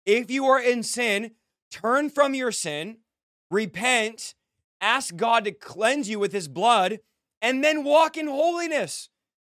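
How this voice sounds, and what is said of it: Yelling, shouting passionately. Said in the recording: “you're yelling and shouting”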